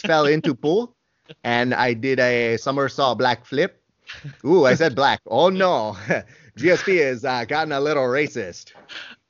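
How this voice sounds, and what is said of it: Impression with French-Canadian accent. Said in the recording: “Is he French? ... There is no rolling the R. That is down south. We are up north. Very different approach to accent. ... That's pretty good.”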